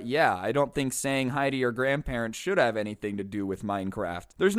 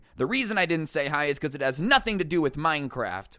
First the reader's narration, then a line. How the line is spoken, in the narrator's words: he snaps back at his grandma saying